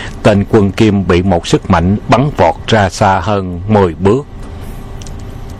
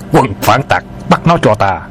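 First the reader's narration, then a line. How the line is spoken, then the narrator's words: Shouted. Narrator (Vietnamese): Tiếng quát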